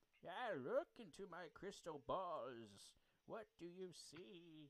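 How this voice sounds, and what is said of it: Old man voice. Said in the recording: “I can do an old man voice,”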